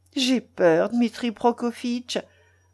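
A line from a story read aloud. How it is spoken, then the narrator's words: Timid. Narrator (French): ajouta-t-elle en regardant timidement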